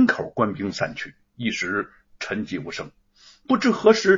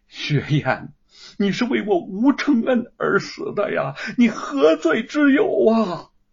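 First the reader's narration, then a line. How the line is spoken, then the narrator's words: Shrill anguished wailing. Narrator (Chinese): 吴承恩的凄厉哭声阵阵传来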